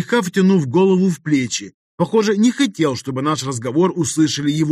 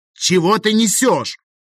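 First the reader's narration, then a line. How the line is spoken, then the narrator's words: Irritated bark. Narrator (Russian): Рявкнул я, раздраженный тем, что меня отвлекает от командования вот-вот готовым начаться боем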